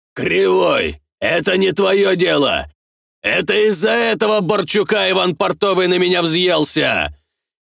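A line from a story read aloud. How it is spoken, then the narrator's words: Shouting. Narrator (Russian): кричал понтер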